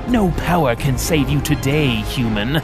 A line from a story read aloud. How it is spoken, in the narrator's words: hissed as his axe struck again